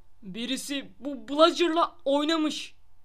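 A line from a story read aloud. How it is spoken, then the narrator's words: Grumbling. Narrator (Turkish): diye homurdanarak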